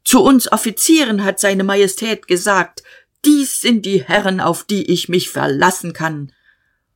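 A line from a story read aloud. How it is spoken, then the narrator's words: Shouting. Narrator (German): Der Major schrie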